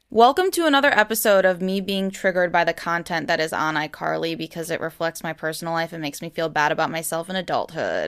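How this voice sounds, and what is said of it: Sad-sounding voice. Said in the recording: “I can hear it in my voice. I sound sad.”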